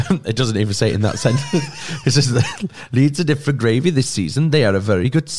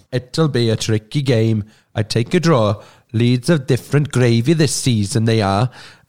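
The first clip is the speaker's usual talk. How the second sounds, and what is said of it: Put-on Welsh accent, passable. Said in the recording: “Can you read it in a Welsh accent, please ... And that was not terrible. ... It was better than Andy's.”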